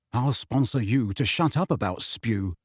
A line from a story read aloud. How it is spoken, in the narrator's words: Ron muttered irritably, but only so Harry could hear him